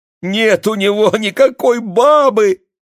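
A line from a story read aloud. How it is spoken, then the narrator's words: Sobbing. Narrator (Russian): зарыдала Тася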